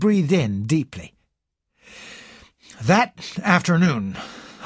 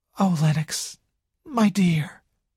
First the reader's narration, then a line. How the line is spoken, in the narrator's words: sighed Nadine